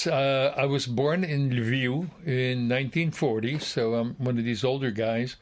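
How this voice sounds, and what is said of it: Western Ukrainian accent. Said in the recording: “Obviously, from the accent, you're from somewhere out west.”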